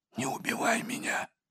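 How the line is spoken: Whispered plea. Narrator (Russian): почему-то шепотом попросил Тоболец

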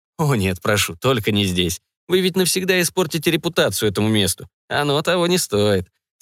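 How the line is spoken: Speaking through laughter. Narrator (Russian): сквозь смех произнес Арно

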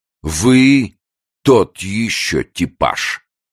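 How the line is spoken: Piercing commanding voice. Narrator (Russian): После долгой паузы Мардер сказал пронизывающим начальственным голосом

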